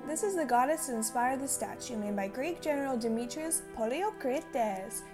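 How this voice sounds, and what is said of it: Put-on Greek accent. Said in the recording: “Did you like my Greek accent”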